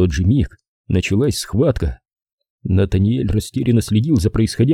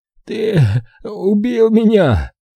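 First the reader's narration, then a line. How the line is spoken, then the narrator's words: Hoarse wheeze. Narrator (Russian): Лоуи прохрипел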